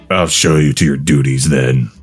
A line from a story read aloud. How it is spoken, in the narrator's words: the king replied with a menacingly smirk